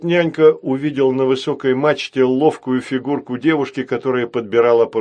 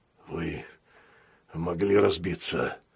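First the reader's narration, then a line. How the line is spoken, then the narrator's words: Hoarse. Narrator (Russian): хрипло сказал пират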